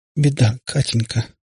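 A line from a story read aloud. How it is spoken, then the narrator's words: Hollow trembling voice. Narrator (Russian): глухим, дрожащим голосом сказала она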